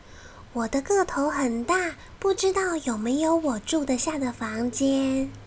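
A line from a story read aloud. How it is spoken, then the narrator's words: Soft, gentle question. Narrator (Chinese): 他弯下腰，轻声细语的问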